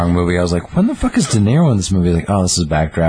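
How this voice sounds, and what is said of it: Usual voice. Nothing is said of it.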